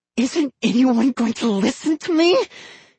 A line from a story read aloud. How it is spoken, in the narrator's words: he said through gritted teeth